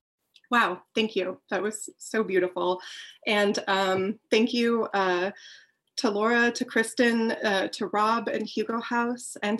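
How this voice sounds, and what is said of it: Wavery, emotional voice. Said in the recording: “how emotional that would make me ... my voice is wavery”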